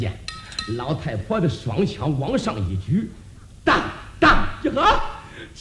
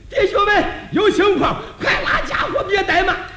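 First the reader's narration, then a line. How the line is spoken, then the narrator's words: Loud shout. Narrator (Chinese): 忙 高声喊了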